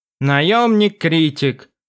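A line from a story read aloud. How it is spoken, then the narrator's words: Snort. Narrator (Russian): фыркнул Квофдзин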